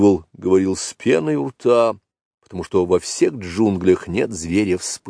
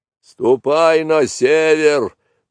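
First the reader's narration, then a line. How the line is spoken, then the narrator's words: Angry roar. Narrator (Russian): проревел сердито буйвол, потому что Маугли кольнул его довольно сильно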